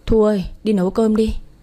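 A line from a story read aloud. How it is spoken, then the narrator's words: Sighing. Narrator (Vietnamese): Quân thở dài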